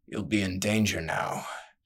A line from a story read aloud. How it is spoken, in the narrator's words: he muttered